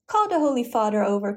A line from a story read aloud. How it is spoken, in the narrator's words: cried Olivia